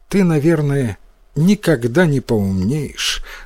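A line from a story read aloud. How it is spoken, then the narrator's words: Sad mother. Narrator (Russian): грустно сказала мать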